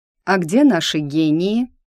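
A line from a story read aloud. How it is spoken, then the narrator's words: Dry question. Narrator (Russian): спросила она сухо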